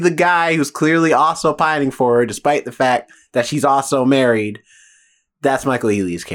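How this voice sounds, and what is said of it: Usual voice. Nothing is said of it.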